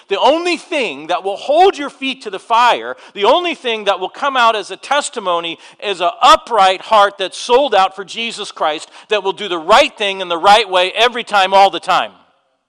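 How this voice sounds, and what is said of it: Shouting, loud preaching voice. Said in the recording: “I'm shouting, aren't I?”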